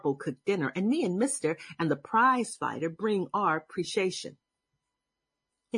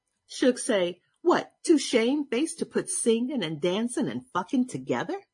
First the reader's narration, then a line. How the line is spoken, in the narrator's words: She laugh